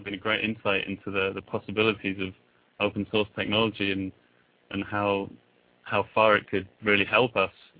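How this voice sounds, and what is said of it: English accent. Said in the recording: “as you might be able to tell by my accent, originally from England”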